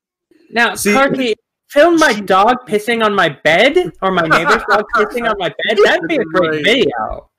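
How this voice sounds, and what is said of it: Talking without lips touching. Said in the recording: “she just talks without her lips ever touching each other ... That's a good impression.”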